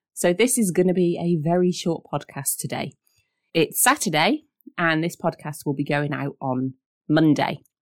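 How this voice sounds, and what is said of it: Voice sounds unwell. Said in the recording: “you may be able to hear it in my voice, or if you follow me on social, you'll know that I have not been very well this week”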